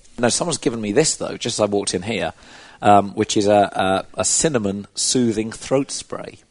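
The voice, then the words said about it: Strained, failing voice. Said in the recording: “I should apologize about my voice ... I'm losing my voice ... I've had to be shouting at people ... it's taken its toll ... It means I sort of sound constantly highly emotional”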